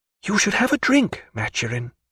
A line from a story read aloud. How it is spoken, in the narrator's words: she whispered